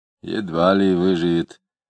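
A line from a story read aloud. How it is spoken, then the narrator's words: Grumbling. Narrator (Russian): проворчал доктор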